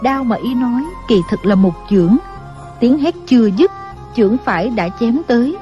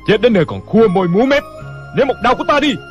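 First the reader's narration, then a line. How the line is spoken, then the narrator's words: Impatient shout. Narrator (Vietnamese): Cảnh Thiên Bá không nhịn được, hét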